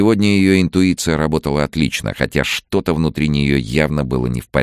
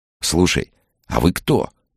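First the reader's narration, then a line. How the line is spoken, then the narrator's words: Quiet question. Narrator (Russian): тихо спросил он Максима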